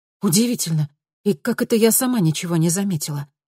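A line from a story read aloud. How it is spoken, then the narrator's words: Exclaiming after pause. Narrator (Russian): воскликнула Луиза после небольшой паузы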